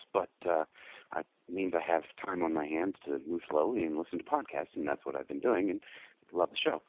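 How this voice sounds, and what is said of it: Slightly hoarse, sick voice. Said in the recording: “I have the flu, so pardon me if I sound a little hoarse”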